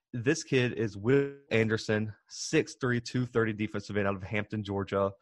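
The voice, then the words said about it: Strong regional accent. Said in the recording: “if my accent is getting that bad”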